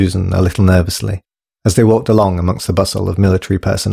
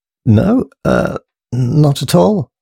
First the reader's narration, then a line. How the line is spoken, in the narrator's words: stuttered Thomas, himself anxious amongst so many uniforms